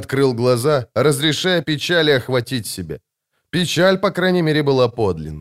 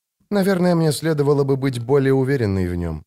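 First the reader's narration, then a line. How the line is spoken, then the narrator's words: Sighing. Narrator (Russian): вздохнула Джессика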